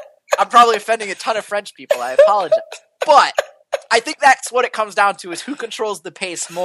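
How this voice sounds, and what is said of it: Usual voice. Nothing is said of it.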